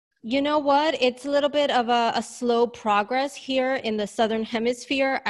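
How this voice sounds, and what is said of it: Slight New York accent. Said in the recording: “I'm a native New Yorker, hence my accent. ... Oh yes, for sure. I can hear a little bit of that.”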